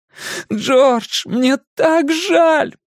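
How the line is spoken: Shouting through tears. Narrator (Russian): прокричал он сквозь слезы

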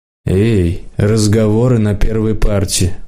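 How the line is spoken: Tired teacher. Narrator (Russian): устало сказала химичка

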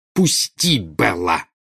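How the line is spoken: Growled. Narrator (Russian): прорычала Нарцисса

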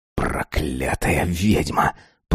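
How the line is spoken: Hoarse wheeze. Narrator (Russian): прохрипел он

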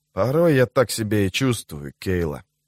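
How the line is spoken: Whisper. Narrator (Russian): прошептал он

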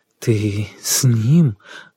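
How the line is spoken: Confused muttering. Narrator (Russian): Глупо, бестолково забормотал Сергей

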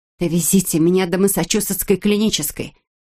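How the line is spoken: Nearly demanding tone. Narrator (Russian): почти требовательным тоном произнесла Эбби

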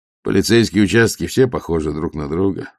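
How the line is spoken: Plain. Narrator (Russian): ответил Ваймс

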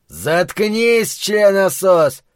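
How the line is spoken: Shouted. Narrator (Russian): закричал он

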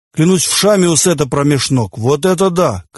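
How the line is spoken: Shout. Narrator (Russian): крикнул он

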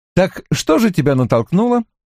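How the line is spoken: Carefree repeating. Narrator (Russian): беспечным тоном повторил я

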